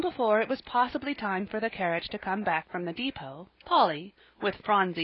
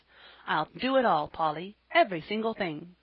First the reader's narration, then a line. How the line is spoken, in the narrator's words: Jasper smiled brightly as he said